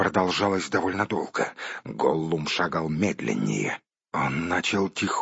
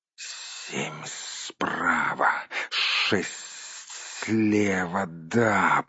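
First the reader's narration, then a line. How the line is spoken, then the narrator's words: Hissing. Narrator (Russian): прошипел он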